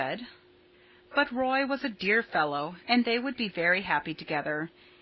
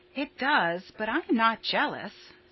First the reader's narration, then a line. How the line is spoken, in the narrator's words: said Stella calmly